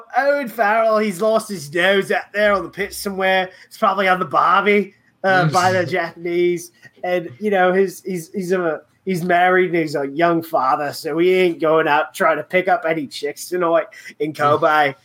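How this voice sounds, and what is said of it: Put-on accent, well done. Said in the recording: “love your accent, by the way. That was phenomenal. ... I think it was pretty good.”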